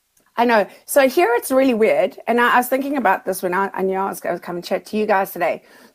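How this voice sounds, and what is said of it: Strong Australian accent. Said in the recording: “your Australian accent is getting really strong”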